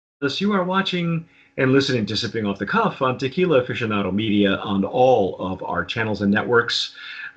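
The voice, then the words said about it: Announcer-style radio voice. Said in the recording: “I'm using my radio voice today”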